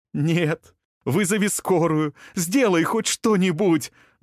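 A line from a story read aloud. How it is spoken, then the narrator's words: Screaming desperately. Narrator (Russian): закричала Илая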